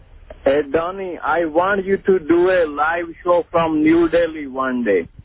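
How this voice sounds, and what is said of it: Indian accent. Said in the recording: “This man is obviously from New Delhi ... This is not a fake accent.”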